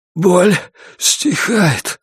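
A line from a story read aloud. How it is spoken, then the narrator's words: Breathed out. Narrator (Russian): выдохнул Джеймисон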